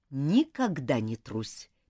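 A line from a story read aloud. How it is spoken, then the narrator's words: Soft but insistent. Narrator (Russian): мягко, но с нажимом произнес Уильям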